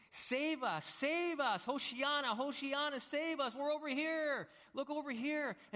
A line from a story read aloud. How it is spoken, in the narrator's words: yelling, and you're screaming, you're begging to be saved